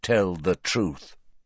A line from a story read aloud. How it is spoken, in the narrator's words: Said Riddle at once, in the same commanding tone